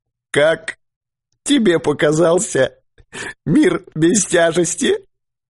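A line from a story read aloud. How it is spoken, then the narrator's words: Sobbing. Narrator (Russian): всхлипнул Дауги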